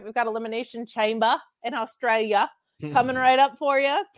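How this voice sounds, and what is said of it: Poor put-on Australian accent. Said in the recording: “Terrible Australian accent”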